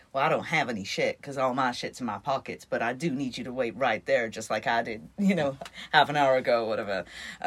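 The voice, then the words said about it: Put-on Texan accent. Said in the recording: “Apologies for the accent. ... Texan pilot.”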